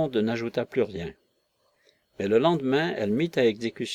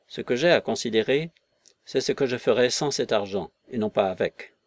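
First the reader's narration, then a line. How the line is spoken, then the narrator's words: Curt. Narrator (French): ajouta-t-il d'un ton tranchant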